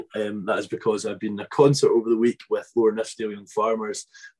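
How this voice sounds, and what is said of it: Voice rougher than normal. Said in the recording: “my voice sounds a wee bit rustic than normal”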